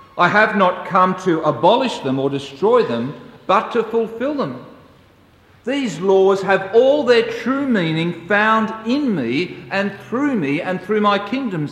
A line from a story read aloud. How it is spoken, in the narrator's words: says Jesus